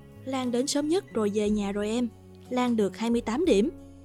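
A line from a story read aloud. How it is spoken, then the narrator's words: Smiling. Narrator (Vietnamese): Cô mỉm cười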